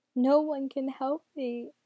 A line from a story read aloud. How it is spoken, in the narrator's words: the boy moaned